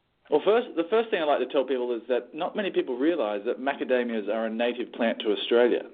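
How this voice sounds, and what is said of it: Smooth Australian accent. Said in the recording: “you can probably tell by my smooth accent here that I'm from down under ... It's dashing. The dashing accent.”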